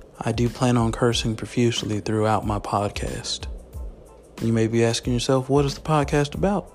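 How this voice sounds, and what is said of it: Strong country twang accent. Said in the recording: “my twang is very country”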